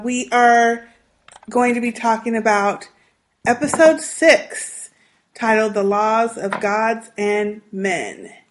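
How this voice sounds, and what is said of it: Weak voice from illness. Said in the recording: “the bronchitis situation... My voice is a little weak. Hopefully I won't cough too much.”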